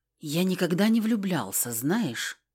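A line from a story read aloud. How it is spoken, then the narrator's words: Detached, asking himself. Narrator (Russian): спросил он отстраненным голосом непонятно у кого, наверное, у себя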